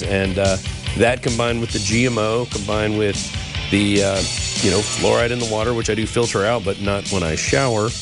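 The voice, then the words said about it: Slightly off, congested-sounding voice. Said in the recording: “my voice sounds a little weird, it's because, we're having some of the highest mold counts”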